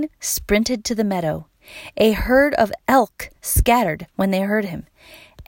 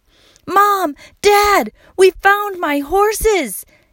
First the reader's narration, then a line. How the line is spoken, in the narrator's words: yelled Wayne